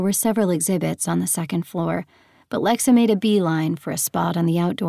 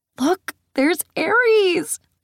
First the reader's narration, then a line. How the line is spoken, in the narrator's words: Lexa squealed